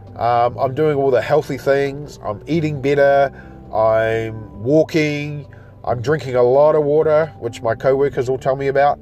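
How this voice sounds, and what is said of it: Slightly off, sick-sounding voice. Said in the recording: “I have been off sick the last couple of, basically the last week, so that's why my voice is still sounding a bit weird”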